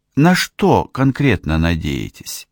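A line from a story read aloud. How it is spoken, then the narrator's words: Calm. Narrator (Russian): спокойно сказала она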